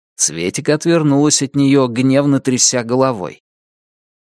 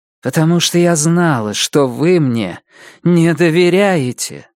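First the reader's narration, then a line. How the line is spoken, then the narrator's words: Tired. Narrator (Russian): устало сказала она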